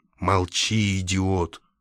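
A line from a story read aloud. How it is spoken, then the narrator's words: Grumbling. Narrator (Russian): проворчал Лакандер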